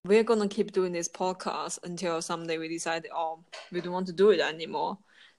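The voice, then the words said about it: Non-native English accent. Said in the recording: “we understand we have accent ... speak English, you know, as third and second language with accent”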